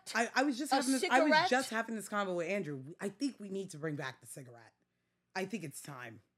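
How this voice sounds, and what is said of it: Staten Island New York accent. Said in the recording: “I'm very much Staten Island ... I'm working on my accent ... I can't sound any worse than this”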